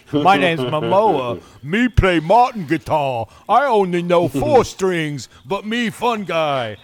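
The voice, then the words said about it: Imitates another person's voice. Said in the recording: “was that your best impression? ... That's how he talks.”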